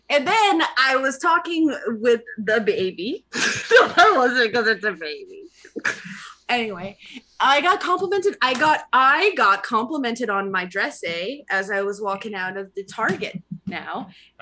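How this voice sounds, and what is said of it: Put-on Canadian accent. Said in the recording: “finish the story in a Canadian accent... Finish in a Canadian accent, eh?”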